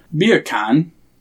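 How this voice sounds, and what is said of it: Attempted English accent, sounds Jamaican. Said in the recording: “Say the words beer can, but in an English accent. ... You just said bacon in Jamaican.”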